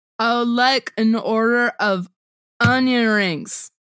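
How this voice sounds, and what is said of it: Imitates a drunk movie character. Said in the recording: “your impersonation of Stu in Confessions of a Teenage Drama Queen ... only the scene when he's drunk”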